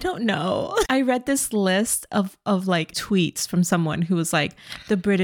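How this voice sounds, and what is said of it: Usual voice. Nothing is said of it.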